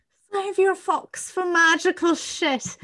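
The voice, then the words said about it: Mixed English-Irish accent. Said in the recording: “that's a bit of a mixture between like English and Irish ... My Irish accent like comes in and out, and it's hard for me to put it on”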